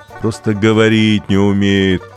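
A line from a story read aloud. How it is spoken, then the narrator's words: Deep-voiced pity. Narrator (Russian): басом пожалела Булавина попугая Гарика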